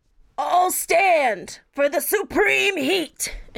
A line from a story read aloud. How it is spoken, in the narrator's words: he yells out